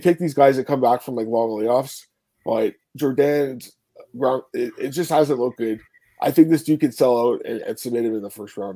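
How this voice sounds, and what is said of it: Worn, strained voice. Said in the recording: “My uh, my voice is a little shot right now. I've been uh, kind of sick the last few days.”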